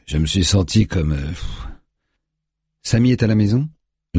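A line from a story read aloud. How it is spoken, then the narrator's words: Tense, interrupting. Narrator (French): l'interrompt DJ d'une voix tendue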